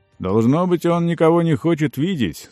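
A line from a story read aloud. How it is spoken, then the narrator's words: Plain, guard. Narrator (Russian): сказал стражник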